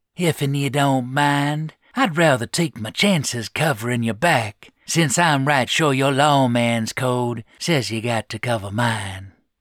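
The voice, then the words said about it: Loose southern drawl, wheezy. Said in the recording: “Bly wheezed. His loose drawl betrayed a distinctly southern upbringing.”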